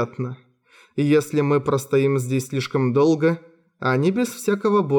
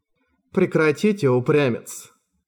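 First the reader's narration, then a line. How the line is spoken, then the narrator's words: Displeased tone. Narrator (Russian): Недовольным тоном ответила Спор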